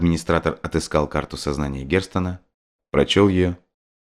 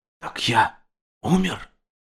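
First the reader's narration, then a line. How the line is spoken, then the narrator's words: Whisper. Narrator (Russian): прошептал Герстон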